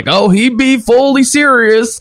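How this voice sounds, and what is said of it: Hick accent imitating Sean Gunn's character. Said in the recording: “in this hick accent, Sean Gunn, as Yondu's sidekick's like”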